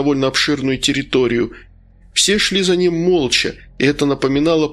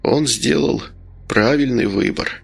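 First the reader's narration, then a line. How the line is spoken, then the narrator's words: Quiet. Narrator (Russian): тихо произнес Медовар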